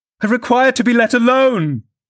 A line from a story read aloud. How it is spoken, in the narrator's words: exclaimed Catherine furiously